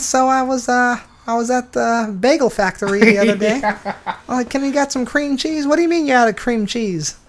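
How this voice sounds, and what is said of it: Bad Bill Burr impression. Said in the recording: “the worst Bill Burr impression”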